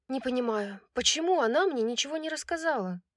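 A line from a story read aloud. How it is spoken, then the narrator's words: Sighing. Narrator (Russian): вздохнула Брайс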